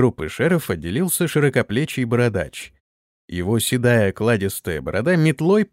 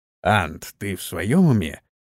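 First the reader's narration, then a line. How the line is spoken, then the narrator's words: Mouthed through teeth. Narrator (Russian): Одними губами процедил он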